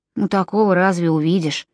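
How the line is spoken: Muttering. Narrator (Russian): пробормотал Джон

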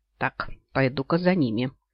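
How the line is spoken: Quiet remark. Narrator (Russian): негромко произнес

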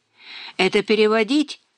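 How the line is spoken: Giggling woman. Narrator (Russian): хихикнула переводчица

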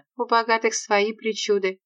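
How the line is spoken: Flat colorless voice. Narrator (Russian): ответила Зиновия бесцветным голосом

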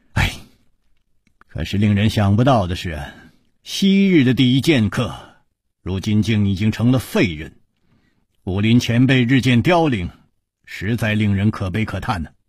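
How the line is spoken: Long sigh. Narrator (Chinese): 楚留香长叹说

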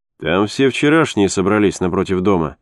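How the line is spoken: Plain. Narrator (Russian): ответил Алмаз

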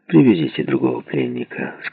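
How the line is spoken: Hoarse voice, English. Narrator (Russian): сказал по-английски хриплый голос

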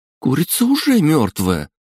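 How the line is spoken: Exclaiming, then sobbing. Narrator (Russian): воскликнула девушка и зарыдала

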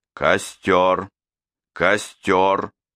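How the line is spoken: Loud repeating. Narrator (Russian): Бенвенуто громким голосом повторял

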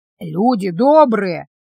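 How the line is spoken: Hoarse, cold-roughened voice. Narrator (Russian): проговорила одна из фигур хриплым простуженным голосом

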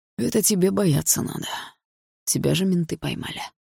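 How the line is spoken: Calm answer. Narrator (Russian): спокойно ответил Барс

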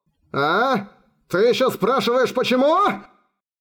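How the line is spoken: Wounded soldier's roar. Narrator (Russian): проревел в ответ раненый солдат

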